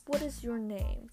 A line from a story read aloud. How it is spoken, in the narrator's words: the soldier asked